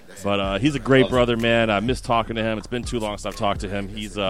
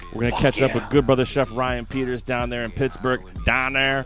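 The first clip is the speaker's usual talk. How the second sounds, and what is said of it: Put-on Pittsburgh accent. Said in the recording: “I'm using my Pittsburgh accent. ... Pittsburgh slang.”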